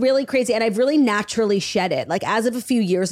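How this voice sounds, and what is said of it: Usual voice. Nothing is said of it.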